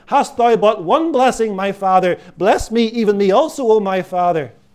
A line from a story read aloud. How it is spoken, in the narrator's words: On hearing Isaac's answer, Esau wails again